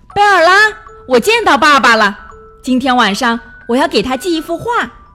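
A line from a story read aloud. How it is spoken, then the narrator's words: Shouting while running. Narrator (Chinese): 一边跑一边喊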